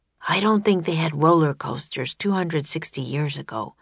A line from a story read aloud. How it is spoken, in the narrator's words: whispered Jack